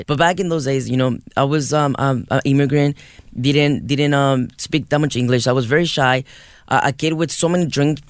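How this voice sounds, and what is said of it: Strong foreign accent. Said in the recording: “You can hear it. I have a huge accent”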